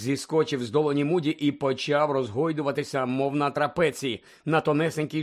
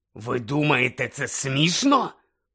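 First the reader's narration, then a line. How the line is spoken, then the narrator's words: Growled. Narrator (Ukrainian): прогарчав він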